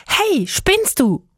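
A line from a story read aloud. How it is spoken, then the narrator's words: Immediate call. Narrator (German): Stella rief sofort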